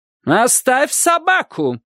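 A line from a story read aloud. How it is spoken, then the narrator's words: Woman shouting. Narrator (Russian): кричала она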